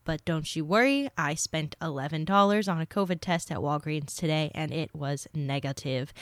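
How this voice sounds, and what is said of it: Stuffy, congested voice. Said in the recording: “I have a little bit of a cold, so if I sound a little bit stuffy”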